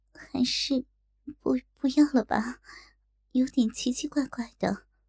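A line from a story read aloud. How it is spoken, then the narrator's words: Trembling voice. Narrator (Chinese): 小龙女颤声道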